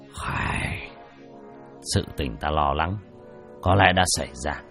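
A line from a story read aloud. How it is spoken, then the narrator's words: Flat, weary sigh. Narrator (Vietnamese): Đỗ Hưng nhàn nhạt thở dài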